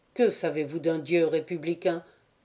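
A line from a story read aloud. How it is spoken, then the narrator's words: Plain question. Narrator (French): demanda-t-il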